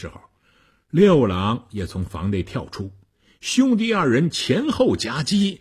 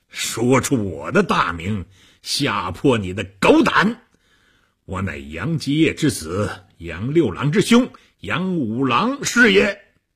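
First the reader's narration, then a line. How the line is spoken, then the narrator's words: Monk laughing heartily. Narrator (Chinese): 和尚哈哈大笑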